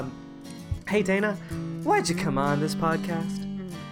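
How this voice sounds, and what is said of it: Exaggerated podcast host voice. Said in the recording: “can you do it in the podcast voice?”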